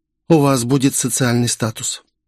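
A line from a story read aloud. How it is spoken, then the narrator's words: Hesitant. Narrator (Russian): молвила неуверенно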